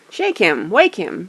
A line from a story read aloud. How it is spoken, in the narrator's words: shouted the others impatiently